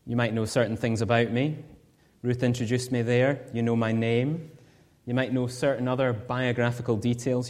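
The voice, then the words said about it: Scottish accent. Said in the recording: “You might hear my accent and know I'm from Scotland.”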